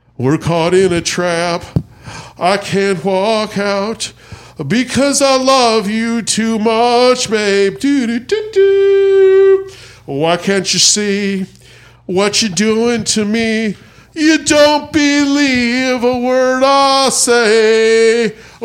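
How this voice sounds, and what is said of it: Sung imitation of another person's voice. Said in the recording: “my impression of Elvis doing Suspicious Minds from the 1970 Hawaiian tour”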